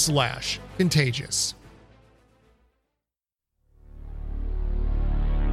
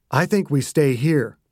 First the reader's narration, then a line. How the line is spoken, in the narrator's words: Gitch said